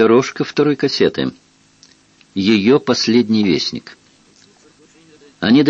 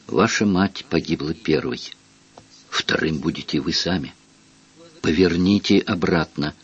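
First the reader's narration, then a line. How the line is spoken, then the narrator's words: Spoken in an undertone. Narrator (Russian): Дюбарта проговорил вполголоса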